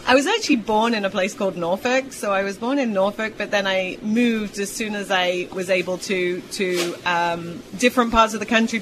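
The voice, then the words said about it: British accent. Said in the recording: “the accent's too much of a benefit for me to lose ... nobody's got a British accent.”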